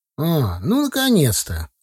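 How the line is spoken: Exclaiming. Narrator (Russian): воскликнул тезка

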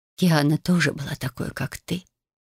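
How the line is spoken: Soft. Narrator (Russian): продолжила земля мягко

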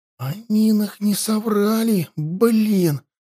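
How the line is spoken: Shaken whisper. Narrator (Russian): прошептал почему-то все еще потрясенный Петька

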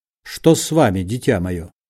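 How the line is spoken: Plain. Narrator (Russian): спросил Бендер

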